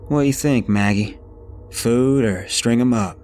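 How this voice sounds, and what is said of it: Very thick rural country accent. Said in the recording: “in the thickest country accent one could imagine”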